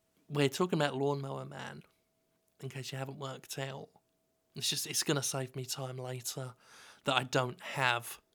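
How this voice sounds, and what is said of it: Whispering. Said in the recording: “I don't know why I'm whispering,”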